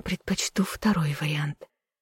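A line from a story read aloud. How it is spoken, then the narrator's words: Whisper against lips. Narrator (Russian): прошептала мне в губы Левелин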